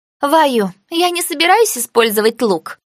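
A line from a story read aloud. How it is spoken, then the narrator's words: Snort. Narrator (Russian): Она фыркнула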